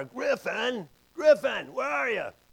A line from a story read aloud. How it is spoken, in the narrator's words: I'm shouting louder